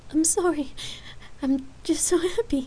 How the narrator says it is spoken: Lark tearfully apologized

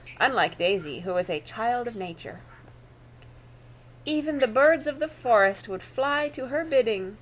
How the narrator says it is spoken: cooed Aunt Celia

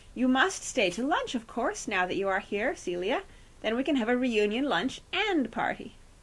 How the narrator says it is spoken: Bagthorpe tried to create a more cordial atmosphere by exclaiming

